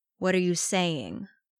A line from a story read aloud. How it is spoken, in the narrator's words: Arcadius growled slowly